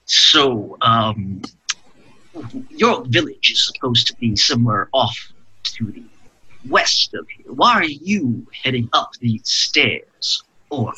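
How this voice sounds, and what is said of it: Deep character voice. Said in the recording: “I'll go back to my deep voice.”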